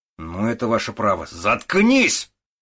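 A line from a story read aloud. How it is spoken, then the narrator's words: Hateful bark. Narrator (Russian): рявкнул Водорезов, с ненавистью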